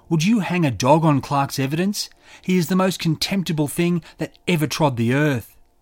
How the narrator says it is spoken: Haynes shouted

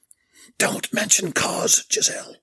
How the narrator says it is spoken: Belinda hissed

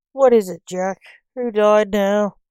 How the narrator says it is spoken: moaned the coroner

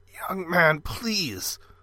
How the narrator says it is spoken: the man croaked

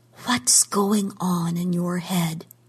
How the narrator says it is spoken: she whispered

